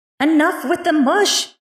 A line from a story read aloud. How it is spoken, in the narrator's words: Nyx shouted in their faces